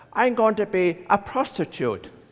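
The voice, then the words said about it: Put-on Northern Irish accent. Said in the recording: “in a little Northern Ireland accent”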